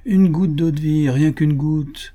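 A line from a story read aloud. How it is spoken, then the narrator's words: Half commanding, half pleading. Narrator (French): dit d'un ton moitié impérieux, moitié suppliant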